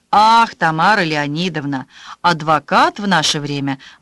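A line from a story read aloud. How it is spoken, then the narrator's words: Sighing. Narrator (Russian): вздохнул Растамянц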